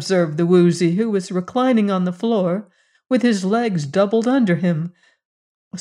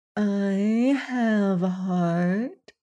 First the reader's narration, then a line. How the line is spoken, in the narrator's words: murmured the Glass Cat